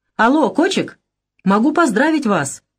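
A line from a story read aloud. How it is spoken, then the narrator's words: Cheerful shout. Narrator (Russian): весело закричал тот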